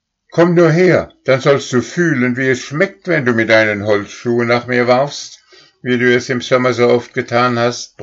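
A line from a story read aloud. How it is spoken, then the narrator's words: Roaring angrily. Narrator (German): brüllte Stern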